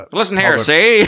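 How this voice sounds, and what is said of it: Old-time 1920s movie gangster voice. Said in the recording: “Sound like one of those 20 movies.”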